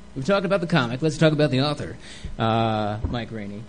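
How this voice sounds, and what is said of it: Radio announcer voice. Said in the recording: “It's my radio voice.”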